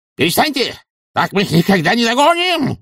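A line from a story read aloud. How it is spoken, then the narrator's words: Yelled. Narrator (Russian): заорал Эфтерп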